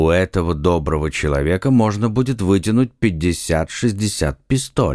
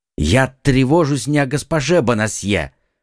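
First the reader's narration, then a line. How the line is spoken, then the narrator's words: Exclaimed. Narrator (Russian): воскликнул Д'Артаньян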